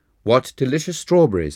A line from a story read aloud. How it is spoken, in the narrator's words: I exclaimed